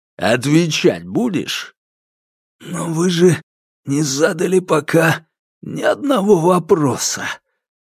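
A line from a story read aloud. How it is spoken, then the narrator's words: Hoarse wheeze. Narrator (Russian): Прохрипел Василий Оттович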